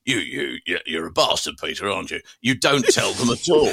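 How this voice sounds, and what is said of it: Imitates another person's voice. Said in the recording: “Your impression of Gary is almost as good as the Roy Hodgson, I've got to say. It's very good.”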